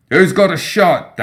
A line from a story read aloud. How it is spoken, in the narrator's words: Dashiell shouted